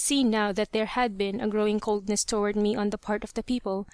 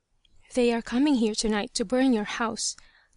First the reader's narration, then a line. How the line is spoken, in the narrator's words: the same voice whispered